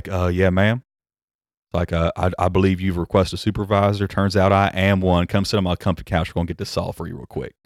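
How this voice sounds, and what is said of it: Put-on Southern drawl. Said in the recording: “be as Southern as you can be ... go full McConaughey ... I'm crap at it now because I haven't done it in so long ... my Southern accent ... it was way more slurry than that was”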